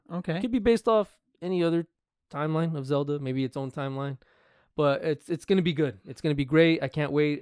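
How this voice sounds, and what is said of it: Tired, hoarse, fading voice. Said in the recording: “I'm getting tired, and I'm losing my voice.”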